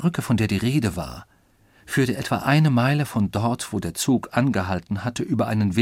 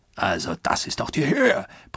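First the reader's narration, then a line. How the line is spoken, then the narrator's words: Roaring. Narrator (German): brüllte Oberst Proctor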